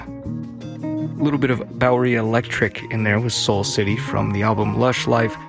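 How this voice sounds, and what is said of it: Hoarse, fading voice. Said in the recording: “losing my voice, or lost it. Hopefully it's going to come back.”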